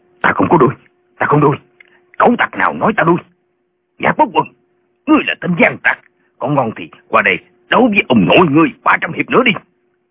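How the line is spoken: Angry, not loud shout. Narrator (Vietnamese): Tiếng nói này không lớn, nhưng Tả Lãnh Thiền tức giận quát lên

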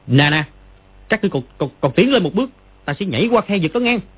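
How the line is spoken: Shouting loudly. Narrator (Vietnamese): Nó bèn quay lại quát to

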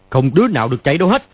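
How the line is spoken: Shouted. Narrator (Vietnamese): Hắn quát lên

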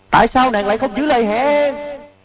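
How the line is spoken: Anguished, despairing scream. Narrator (Vietnamese): Tiếng thét đầy bi thương, tuyệt vọng, khổ đau

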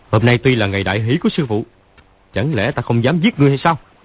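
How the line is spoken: Shouting old man. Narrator (Vietnamese): Lão quát

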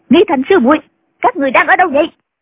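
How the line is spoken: Shouted. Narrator (Vietnamese): Nghi quà lại quát

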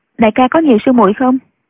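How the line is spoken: Cold question. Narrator (Vietnamese): Nghi Lâm lạnh lùng hỏi

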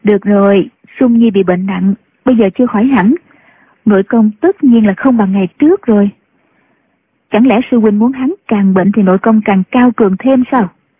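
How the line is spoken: Smiling speech. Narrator (Vietnamese): Nhạc Phu Nhân mỉm cười nói

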